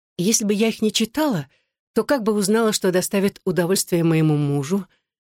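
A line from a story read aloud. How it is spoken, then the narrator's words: Hoarse mutter. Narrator (Russian): хрипло пробормотала она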